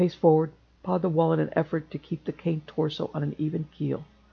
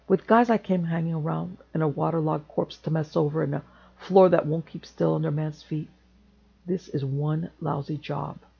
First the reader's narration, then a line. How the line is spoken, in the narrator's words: muttered darkly